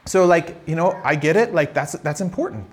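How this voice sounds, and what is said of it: Noticeable accent from another country. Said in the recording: “as you can hear from my accent, I have, I've gone to another country”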